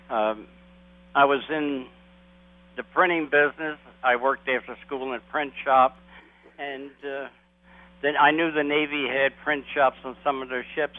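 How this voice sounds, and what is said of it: East Coast American accent. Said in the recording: “this accent. It's definitely East Coast, but I can't narrow it down.”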